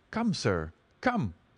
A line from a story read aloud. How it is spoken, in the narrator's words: cried Franklin